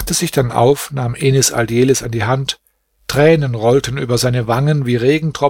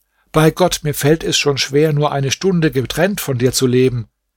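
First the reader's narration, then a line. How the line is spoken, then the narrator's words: Calling out. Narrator (German): rief Nureddin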